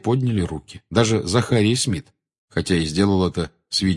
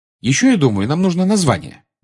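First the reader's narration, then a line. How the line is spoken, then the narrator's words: Cheerful. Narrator (Russian): бодро сказала она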